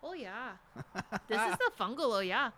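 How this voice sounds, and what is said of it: Put-on Midwestern accent. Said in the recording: “That's my Midwest accent.”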